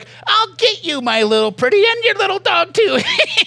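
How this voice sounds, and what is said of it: Wicked Witch of the West impression. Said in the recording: “That's my Wicked Witch of the West impersonation.”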